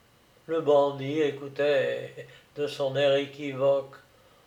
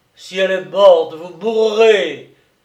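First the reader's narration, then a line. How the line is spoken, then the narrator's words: Yelling. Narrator (French): hurla Vaugelade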